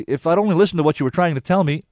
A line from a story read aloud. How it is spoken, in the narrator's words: she went on quickly